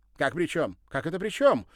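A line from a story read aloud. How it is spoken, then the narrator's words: Indignant exclamation. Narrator (Russian): Возмущенно воскликнула та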